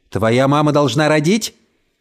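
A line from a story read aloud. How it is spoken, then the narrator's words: Shouted. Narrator (Russian): крикнул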